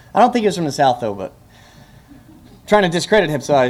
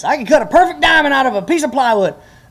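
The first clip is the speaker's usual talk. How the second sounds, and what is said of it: Put-on Southern accent. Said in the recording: “I used a Southern accent.”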